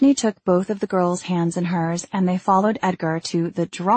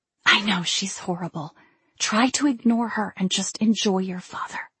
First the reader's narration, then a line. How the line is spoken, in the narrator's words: She ... whispered